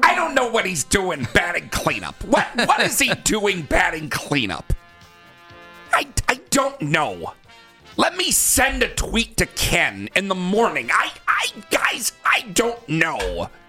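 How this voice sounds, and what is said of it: Imitates another person's voice. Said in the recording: “Is that a pretty good impression? ... I do like that.”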